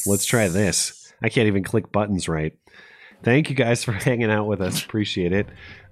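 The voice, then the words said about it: Worn-out, tired voice. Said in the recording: “I'm pretty much done, as you can probably tell from my voice. And now my nose is starting to run.”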